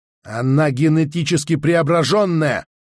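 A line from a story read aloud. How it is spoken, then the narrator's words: Barked. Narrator (Russian): рявкнул Анна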